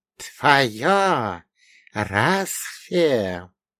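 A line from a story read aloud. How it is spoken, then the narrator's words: Insinuating serpent hiss. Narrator (Russian): вкрадчиво прошипела мать змеиха устами своего сына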